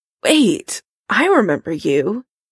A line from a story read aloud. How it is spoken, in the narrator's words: Karen croaks, though every word hurts